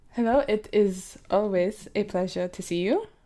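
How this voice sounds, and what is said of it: Exaggerated fake French accent. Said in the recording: “In a really fake French accent.”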